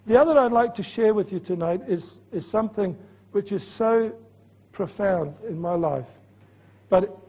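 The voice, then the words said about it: Scottish accent. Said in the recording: “I can speak Scottish because I was born and bred in Edinburgh ... I've been truly a Scot all my life”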